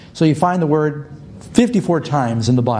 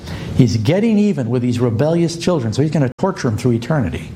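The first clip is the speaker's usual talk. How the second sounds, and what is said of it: Sarcastic delivery. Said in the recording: “I'm being sarcastic.”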